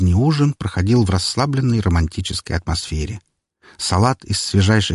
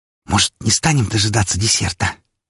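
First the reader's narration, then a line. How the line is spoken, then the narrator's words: Heated whisper, blushing girl. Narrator (Russian): жарко прошептала покрасневшая девушка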